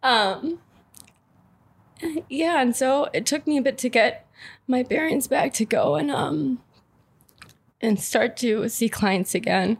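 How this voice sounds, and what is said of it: Emotional, choked-up voice. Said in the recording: “sorry, I'm getting a little emotional here ... I didn't think I was going to be this emotional”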